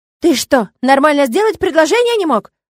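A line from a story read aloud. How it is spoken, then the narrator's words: Distant yell. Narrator (Russian): заорал кто-то из окна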